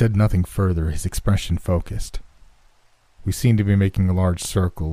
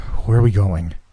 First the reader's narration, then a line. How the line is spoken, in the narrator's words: panted